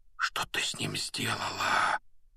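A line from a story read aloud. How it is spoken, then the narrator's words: Whisper. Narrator (Russian): прошептал Гарри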